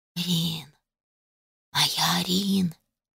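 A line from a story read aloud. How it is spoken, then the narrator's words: Quiet whisper. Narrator (Russian): Тихий шепот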